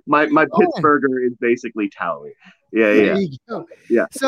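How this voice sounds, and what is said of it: Usual voice. Nothing is said of it.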